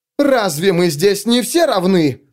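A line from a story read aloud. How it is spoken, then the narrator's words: Excited mocking yell. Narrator (Russian): завопил он, адресуясь к галерее для публики в подражание возбужденной манере Суорбрека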